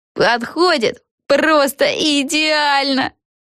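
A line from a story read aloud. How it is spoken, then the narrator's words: Squealed. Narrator (Russian): взвизгнула Криспи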